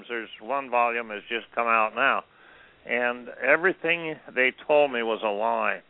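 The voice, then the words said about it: Strained, hoarse, fading voice. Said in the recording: “I'm losing my voice”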